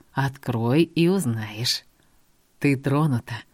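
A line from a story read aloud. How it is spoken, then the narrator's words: Summing up. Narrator (Russian): подытожил Мот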